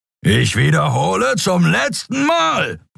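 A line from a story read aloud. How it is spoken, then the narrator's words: Bellowed. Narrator (German): brüllte Sron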